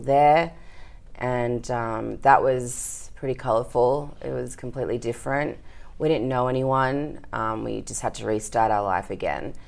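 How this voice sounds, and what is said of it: Australian accent. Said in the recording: “You have an Australian accent”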